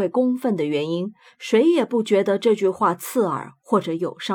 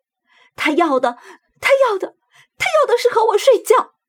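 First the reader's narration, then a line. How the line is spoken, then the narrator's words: Angry shouting. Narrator (Chinese): 愤怒促使他朝旅客们喊道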